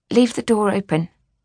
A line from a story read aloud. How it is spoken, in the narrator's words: said nervously